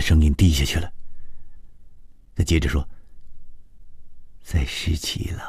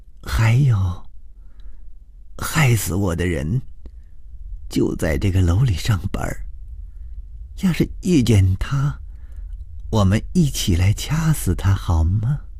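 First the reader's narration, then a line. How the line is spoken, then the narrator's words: Hoarse. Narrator (Chinese): 崔娟的声音也有点嘶哑，她接着说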